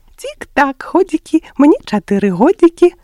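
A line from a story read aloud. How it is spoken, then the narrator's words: Laughing together. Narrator (Belarusian): дружна рассмяяліся фламастары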